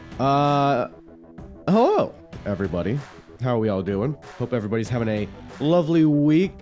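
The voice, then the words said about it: Voice sounds ill. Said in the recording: “if you can't tell in my voice, is I've been a little under the weather the past few days”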